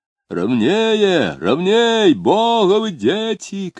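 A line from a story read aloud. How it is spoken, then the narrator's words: Chesty, excited, anxious shout. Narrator (Russian): кричал делатель пивных бутылок грудным голосом, восторженно и тревожно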